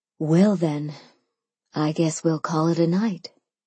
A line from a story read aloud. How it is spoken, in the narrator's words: Sophia sighed